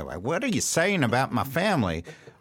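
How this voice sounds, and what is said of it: Questionable West Virginia accent. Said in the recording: “I'm not even sure that's a West Virginia accent.”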